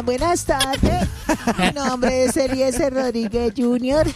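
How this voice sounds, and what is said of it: Child's voice. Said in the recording (Spanish): “hazlo tú con tu voz de niño”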